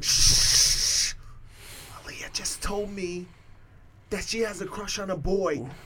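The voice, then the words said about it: Whispering. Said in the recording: “whispering”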